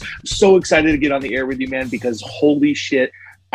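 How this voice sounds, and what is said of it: Hyped, wrestler-promo style energy. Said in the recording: “if you can't tell from my voice, I feel like a wrestler that like got his opportunity to do a promo right now”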